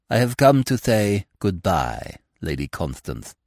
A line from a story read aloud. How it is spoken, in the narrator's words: said Baxter coldly and precisely